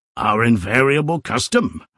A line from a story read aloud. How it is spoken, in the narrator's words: replied Mr